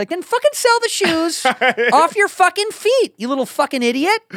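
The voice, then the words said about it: Imitates another person's voice. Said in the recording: “good impersonation”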